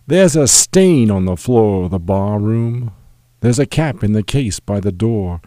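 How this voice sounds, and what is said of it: Imperfect put-on British accent. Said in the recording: “I will do it with a somewhat false British accent.”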